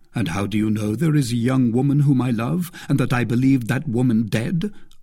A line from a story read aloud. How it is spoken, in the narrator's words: asked D'Artagnan